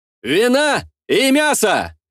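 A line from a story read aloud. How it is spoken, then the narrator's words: Dashing shout, playing fool. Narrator (Russian): Залихватски прокричал я, стараясь вновь отыгрывать роль расточительного и легкомысленного дурачка Борчука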